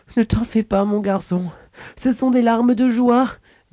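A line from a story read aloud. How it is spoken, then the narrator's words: Speaking through harder sobs. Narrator (French): dit Isabella en sanglotant de plus belle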